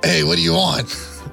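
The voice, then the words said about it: Put-on Boston accent. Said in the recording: “Can you start talking in a Boston-type accent?... it kind of sounds like that... Oh my God, you're good.”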